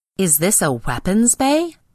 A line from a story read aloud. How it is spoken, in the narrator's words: exclaimed the monster, scandalized on suit radio